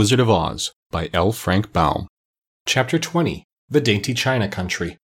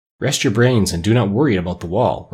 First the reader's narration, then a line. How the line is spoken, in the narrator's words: replied the Woodman